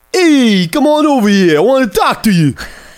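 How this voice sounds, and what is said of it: Put-on Brooklyn accent. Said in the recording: “It's Brooklyn accent. It's Ryan Gosling's Brooklyn accent.”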